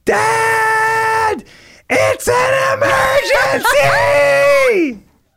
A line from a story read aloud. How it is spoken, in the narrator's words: he screams